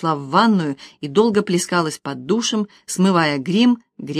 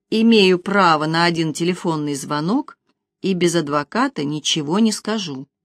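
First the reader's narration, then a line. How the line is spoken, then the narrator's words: Gloomy. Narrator (Russian): мрачно произнесла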